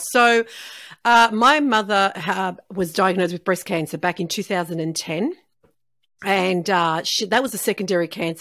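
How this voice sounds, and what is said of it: Australian accent. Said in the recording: “they can hear the accent ... I'm in Melbourne, Australia”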